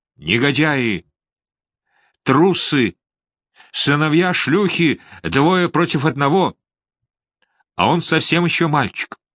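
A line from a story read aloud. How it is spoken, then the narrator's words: Shout. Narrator (Russian): Рыцарь кричал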